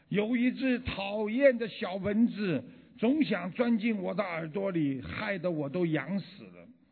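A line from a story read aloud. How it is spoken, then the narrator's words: Roaring. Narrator (Chinese): 大象吼着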